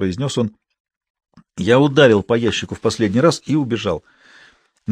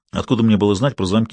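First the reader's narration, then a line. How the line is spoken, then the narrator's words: Plain. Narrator (Russian): сказал я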